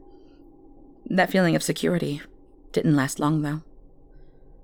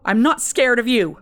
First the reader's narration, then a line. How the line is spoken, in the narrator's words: I shouted to the emptiness